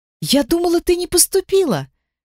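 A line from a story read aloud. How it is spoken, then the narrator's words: Exclaimed, young woman. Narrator (Russian): воскликнула девушка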